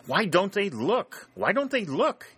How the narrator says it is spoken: exclaiming

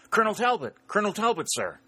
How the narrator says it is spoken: exclaimed

